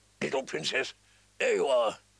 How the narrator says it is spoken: he said in his gruff, kind voice

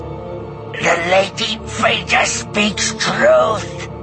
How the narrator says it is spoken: Kabarak said, his voice taut with the strain of holding back Chewbacca's hands

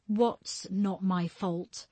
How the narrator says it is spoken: Julia said, trying to sound firm, but her voice shaking

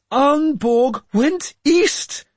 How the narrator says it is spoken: Fritha said desperately

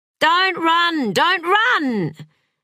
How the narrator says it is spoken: Elizabeth used to shout at Jamie

